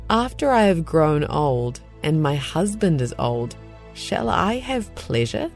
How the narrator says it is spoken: Sarah laughed to herself, saying

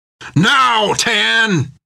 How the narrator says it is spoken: cried Jack

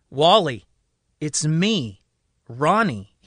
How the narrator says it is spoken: says

